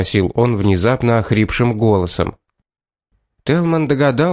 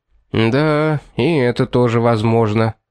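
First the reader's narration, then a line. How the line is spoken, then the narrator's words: Gloomy agreement. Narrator (Russian): мрачно согласился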